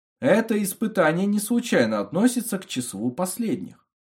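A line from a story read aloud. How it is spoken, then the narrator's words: Soft voice. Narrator (Russian): мягко произнес голос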